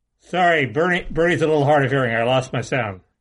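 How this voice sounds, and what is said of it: Imitates another person's voice. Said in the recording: “That was a Bernie impersonation. ... That was good.”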